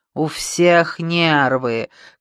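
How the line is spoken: Petulant drawl. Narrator (Russian): капризно протянул он

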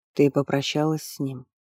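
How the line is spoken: Soft question. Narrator (Russian): мягко спросил Пиркао

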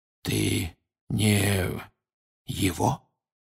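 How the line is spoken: Barely audible, lips still. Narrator (Russian): еле слышно проговорил Крауч, почти не шевеля губами

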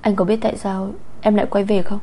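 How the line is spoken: Hesitant. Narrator (Vietnamese): Bạch Tinh Nhiên ngập ngừng nói

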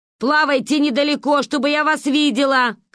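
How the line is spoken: Female shout. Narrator (Russian): крикнула она

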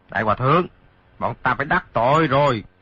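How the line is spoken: Shouting. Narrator (Vietnamese): quát

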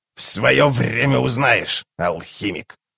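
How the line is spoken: Grumbling old woman. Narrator (Russian): проворчала Карга

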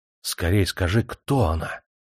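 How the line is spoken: Whispered. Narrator (Russian): прошептал

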